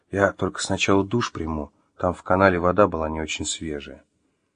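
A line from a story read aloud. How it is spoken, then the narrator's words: Whispered. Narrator (Russian): Маша прошептала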